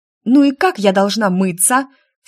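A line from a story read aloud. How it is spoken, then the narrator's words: Exasperated bark. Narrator (Russian): в сердцах рявкнула я, сидя в горячей воде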